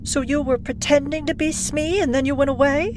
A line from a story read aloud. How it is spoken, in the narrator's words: She laughed, bewildered